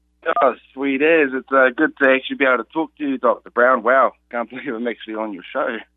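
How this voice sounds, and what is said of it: New Zealand accent. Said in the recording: “you've got the New Zealand accent”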